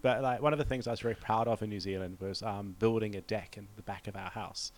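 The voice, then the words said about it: New Zealand accent. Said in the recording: “With your Kiwi accent”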